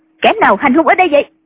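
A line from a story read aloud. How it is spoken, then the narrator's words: Woman shouting angrily. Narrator (Vietnamese): người phụ nữ quát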